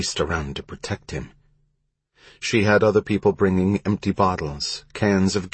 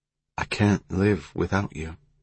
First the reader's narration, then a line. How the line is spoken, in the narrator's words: she said softly